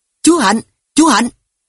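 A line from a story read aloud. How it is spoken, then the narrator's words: Loud shouting. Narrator (Vietnamese): miệng hét to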